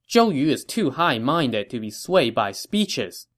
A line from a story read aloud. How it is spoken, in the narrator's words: Jiang Gan answered